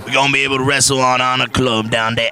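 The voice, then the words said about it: Put-on Bayou Southern accent. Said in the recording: “I don't know why I gave him a Bayou accent”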